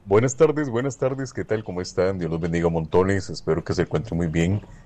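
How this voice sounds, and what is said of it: Strong, deep radio-announcer voice. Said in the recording (Spanish): “Un hermano tiene una voz sota ... usted tiene voz de locutor de radio, pero este hermano tiene una voz bien fuerte.”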